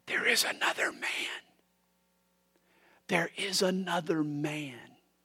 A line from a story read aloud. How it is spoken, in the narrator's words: They heard him whisper